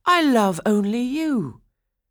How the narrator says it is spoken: Franz cried

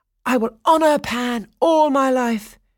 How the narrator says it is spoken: Daphnis exclaimed

